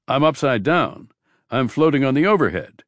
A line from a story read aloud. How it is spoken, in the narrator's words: Carrie cried out in panic